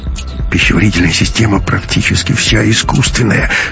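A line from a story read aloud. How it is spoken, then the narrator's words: Mumbling. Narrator (Russian): бормотал Ковалев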